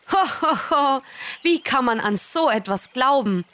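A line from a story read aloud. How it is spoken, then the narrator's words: Mocking laughter. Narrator (German): Sie lachten und spotteten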